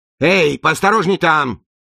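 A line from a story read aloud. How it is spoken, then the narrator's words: Yelling. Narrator (Russian): заорал он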